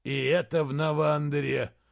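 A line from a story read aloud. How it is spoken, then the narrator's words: Grumbling. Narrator (Russian): проворчал Изгримнур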